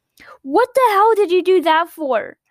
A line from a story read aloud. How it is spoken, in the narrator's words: Senzo yelled